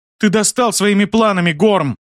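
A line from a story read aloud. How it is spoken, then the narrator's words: Shouting. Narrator (Russian): крикнула она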